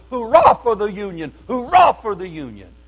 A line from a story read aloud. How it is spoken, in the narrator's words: faint from exposure and loss of blood, shouted as loud as I could